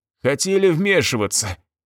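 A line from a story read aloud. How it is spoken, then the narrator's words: Nervous chuckle. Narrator (Russian): мужик нервно хохотнул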